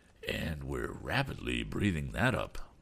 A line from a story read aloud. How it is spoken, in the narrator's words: added Captain Weston solemnly